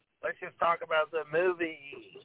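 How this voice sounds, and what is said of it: Imitates another person's voice. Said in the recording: “That's a pretty good impression of him. That sounds just like him.”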